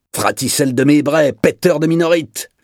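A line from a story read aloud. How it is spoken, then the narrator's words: Cook's shout. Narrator (French): lui cria alors le cuisinier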